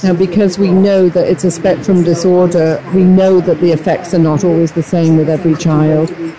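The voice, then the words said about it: British accent. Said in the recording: “I hear an accent. ... I'm originally from Great Britain.”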